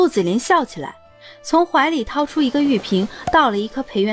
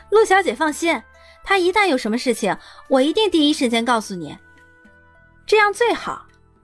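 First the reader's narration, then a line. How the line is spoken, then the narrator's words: Laughing. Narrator (Chinese): 立马笑道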